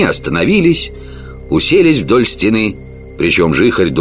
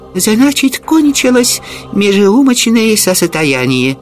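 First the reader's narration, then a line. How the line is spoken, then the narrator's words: Exclaimed by a monk. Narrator (Russian): воскликнул бедный монах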